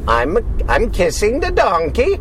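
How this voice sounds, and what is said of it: Imitated weird foreign accent. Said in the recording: “I don't know what accent that was ... Americans doing weird accents”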